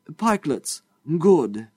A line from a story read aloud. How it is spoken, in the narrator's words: he exclaimed